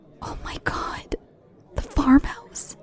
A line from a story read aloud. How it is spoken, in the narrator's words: she hissed